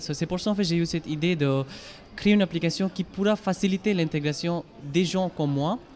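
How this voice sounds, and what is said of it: Indian-accented French. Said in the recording (French): “Avec mon accent, tout pour comprendre que je ne suis pas français. je viens d'Inde”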